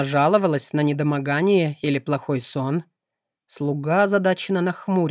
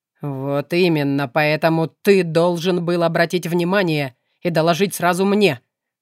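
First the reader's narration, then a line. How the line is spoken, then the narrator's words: Restrained fury through teeth. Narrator (Russian): процедила Кара, сдерживая рвущуюся наружу ярость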